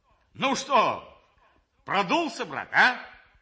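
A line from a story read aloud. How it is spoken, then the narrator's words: Shout. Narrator (Russian): крикнул он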